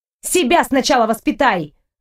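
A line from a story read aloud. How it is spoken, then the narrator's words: Snapping retort. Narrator (Russian): огрызнулась я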